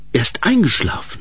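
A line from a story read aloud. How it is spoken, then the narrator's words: Whispered. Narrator (German): flüsterte Ensel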